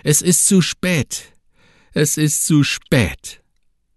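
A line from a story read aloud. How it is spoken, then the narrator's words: Loud scream. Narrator (German): schrie laut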